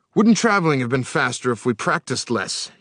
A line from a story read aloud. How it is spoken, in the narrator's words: he said with a gasp